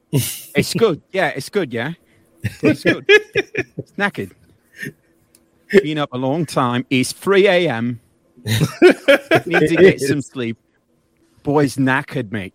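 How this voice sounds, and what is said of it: Bad put-on British accent. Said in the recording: “I'm sorry to all the British people out there for that terrible accent.”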